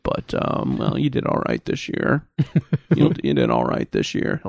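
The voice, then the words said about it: Low, guttural, dry unexcited voice. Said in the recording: “it sounds a little like this... It's very low and very guttural, and yeah, you know, not a lot of excitement... dry... delivery”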